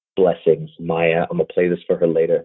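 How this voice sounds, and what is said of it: Quiet, low-key NPR-style voice. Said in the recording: “NPR voice ... real chill ... keep it real quiet, real low key ... I'm gonna stay real quiet”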